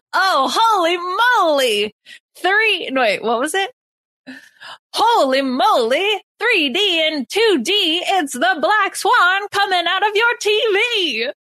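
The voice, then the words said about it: Old-timey put-on accent. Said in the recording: “What accent is that? ... It's a little bit like old timey.”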